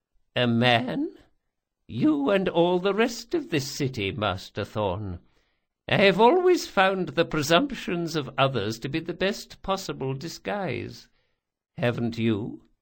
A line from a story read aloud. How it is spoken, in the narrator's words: Locke chuckled morosely